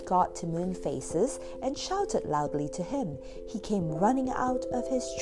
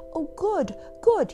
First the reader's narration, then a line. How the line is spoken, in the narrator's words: he cried